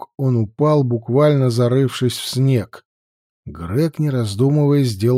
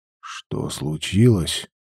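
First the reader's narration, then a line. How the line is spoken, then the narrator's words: Whisper. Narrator (Russian): прошептал он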